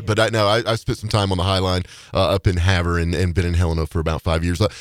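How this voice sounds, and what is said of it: North Carolina accent. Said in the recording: “I'm a North Carolinian, if you can't tell from the accent, but I'm a little bit different.”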